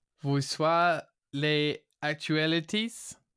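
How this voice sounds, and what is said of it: Attempted French accent. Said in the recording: “This is not my best accent... That's pretty close... I feel like I messed up the first word.”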